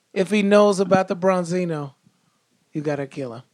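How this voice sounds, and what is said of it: Godfather mobster impersonation. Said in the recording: “still doing my Godfather impersonation.”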